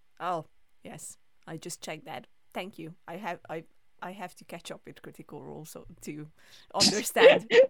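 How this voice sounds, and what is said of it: Non-native English accent. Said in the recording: “my broken English ... your accent, which is always lovely”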